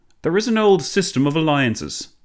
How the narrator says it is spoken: Clemenceau boomed

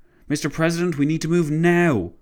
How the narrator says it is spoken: his driver exclaimed

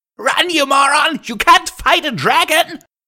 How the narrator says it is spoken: Gilda screamed

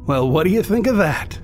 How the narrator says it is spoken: cried a bystander

